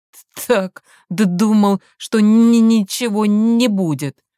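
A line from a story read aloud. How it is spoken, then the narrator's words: Dejected exhale. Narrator (Russian): Он удрученно выдохнул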